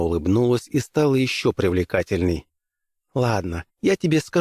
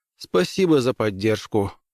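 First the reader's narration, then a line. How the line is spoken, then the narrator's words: Glum. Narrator (Russian): уныло отозвался Граймс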